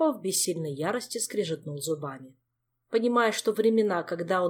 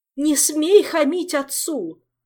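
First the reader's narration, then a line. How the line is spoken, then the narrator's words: Wailing. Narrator (Russian): снова взвыла матушка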